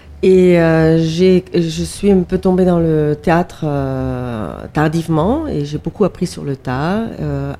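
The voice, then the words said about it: Slight Austrian accent in French. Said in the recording (French): “je suis d'origine autrichienne ... tout mon petit accent”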